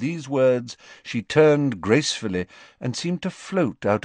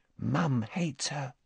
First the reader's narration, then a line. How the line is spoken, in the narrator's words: said Ginny quietly